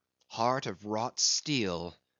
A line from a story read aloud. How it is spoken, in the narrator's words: murmured Starbuck